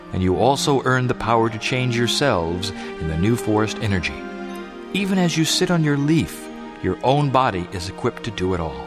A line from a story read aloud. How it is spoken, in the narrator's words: said the spirit quietly